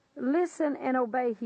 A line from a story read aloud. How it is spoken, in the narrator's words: he said